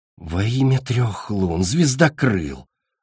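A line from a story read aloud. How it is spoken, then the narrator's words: Pleading. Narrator (Russian): взмолилась Ореола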